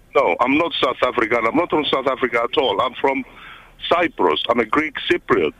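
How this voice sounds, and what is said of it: South African-sounding accent. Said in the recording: “such a good accent, South African accent ... Find yourself slipping into South African then?”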